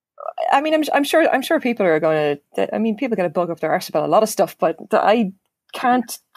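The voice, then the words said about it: Irish accent. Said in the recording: “it sounds even better when you say that, and you're Irish”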